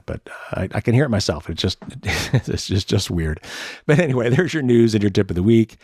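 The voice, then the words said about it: Slightly hoarse, tired voice. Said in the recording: “my voice is starts to get a little hoarse toward the end of these shows”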